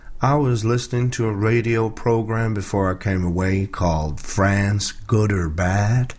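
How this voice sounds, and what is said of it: Attempted Texan accent. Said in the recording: “I'll try and do a Texan accent. I'm sure that Julie in Dallas will be on the line telling me it's crap.”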